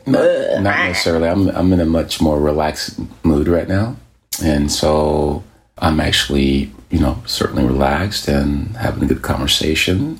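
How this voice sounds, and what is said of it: Deep voice. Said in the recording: “you have this deep voice ... this is my, you know, early morning voice”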